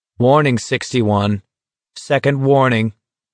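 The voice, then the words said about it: Perfectly neutral, flat voice. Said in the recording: “in a perfectly neutral voice.”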